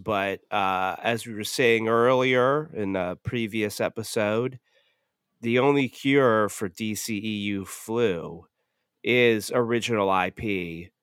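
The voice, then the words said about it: Sick-sounding voice. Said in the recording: “I'm not 100%. Obviously, you can tell by my voice.”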